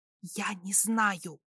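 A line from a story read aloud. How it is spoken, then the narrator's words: Whisper. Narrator (Russian): прошептала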